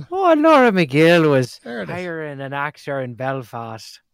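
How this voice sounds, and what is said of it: Put-on Irish accent. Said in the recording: “do you want to do your Irish accent?”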